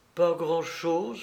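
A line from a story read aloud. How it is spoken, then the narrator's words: Weak murmur. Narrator (French): murmura la jeune fille d'une voix faible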